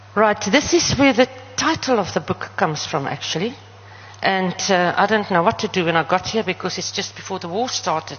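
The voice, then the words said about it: Namibian English (Namlish) accent. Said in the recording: “I speak Namlish and my accent is also very...”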